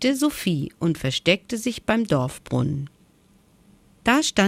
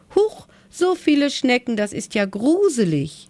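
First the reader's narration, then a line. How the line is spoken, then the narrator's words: Calling out. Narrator (German): rief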